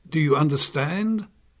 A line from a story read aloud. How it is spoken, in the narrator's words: asked Ongo